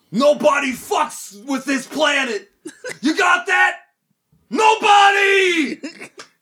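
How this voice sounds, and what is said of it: Yelling. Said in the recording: “he's yelling”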